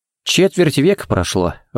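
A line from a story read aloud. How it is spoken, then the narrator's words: Sigh. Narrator (Russian): вздохнул Харри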